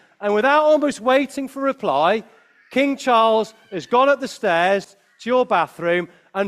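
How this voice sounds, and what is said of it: Usual voice. Nothing is said of it.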